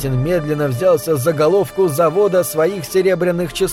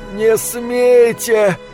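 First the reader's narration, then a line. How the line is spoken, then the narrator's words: Breathless, strained. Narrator (Russian): с трудом выдохнул кондуктор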